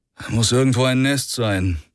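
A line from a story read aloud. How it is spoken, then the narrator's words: Sigh. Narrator (German): seufzte Rick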